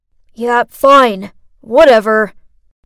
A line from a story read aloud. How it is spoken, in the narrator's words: gruffly said